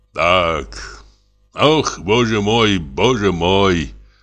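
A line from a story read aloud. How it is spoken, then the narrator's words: Sighed. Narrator (Russian): вздохнул Самойленко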